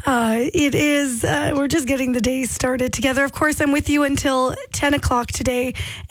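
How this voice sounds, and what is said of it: Slightly hoarse, strained voice. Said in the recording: “I've lost my voice just a little bit. Go easy on me.”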